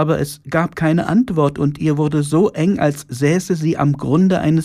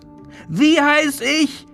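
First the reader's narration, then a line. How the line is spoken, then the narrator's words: Shriek. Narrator (German): kreischte die Exzellenz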